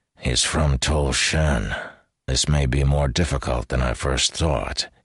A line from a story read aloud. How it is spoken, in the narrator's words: he muttered to Davian